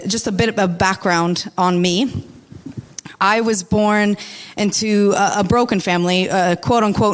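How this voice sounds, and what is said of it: American accent. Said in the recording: “I'm from America, if you could tell by my accent.”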